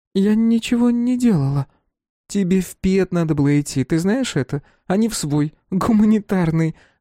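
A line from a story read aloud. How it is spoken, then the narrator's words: Laughing. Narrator (Russian): рассмеялась сестра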